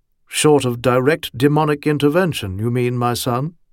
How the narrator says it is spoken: Mike asked dryly

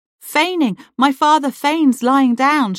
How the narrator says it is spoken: she cried

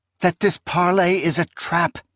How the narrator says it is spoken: Esmenet exclaimed

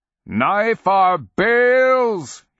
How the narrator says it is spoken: roars into the crotched depths

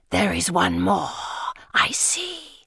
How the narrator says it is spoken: it hisses

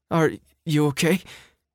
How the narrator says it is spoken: She stammered

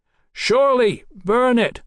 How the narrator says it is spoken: Mallory shouted

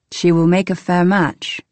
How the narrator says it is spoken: he said

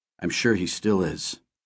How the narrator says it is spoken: my father said quietly

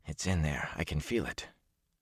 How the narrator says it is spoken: Matt kept muttering to himself

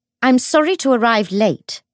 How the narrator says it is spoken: she said, in the practiced tone of someone used to pitching her voice loudly to be heard over a room full of men

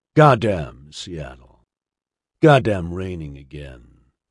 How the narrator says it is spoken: grunted

